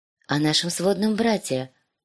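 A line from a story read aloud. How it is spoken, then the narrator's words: Soft, precise correction. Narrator (Russian): поправилась Санса мягко и точно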